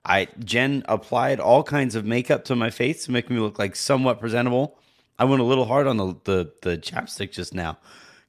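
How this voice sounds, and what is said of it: Sick, flu-affected voice. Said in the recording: “As you guys can hear from my voice, I am in the middle of my flu game.”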